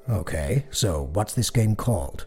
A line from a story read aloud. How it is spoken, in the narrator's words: Dad asked